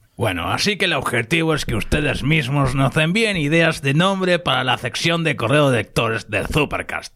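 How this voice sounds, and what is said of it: Spanish accent. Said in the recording (Spanish): “con ese acento español tan sexy”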